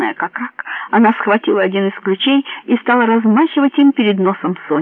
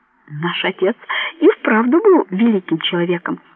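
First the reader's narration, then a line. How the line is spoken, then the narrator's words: Laughing. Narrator (Russian): сквозь смех заговорил Антонио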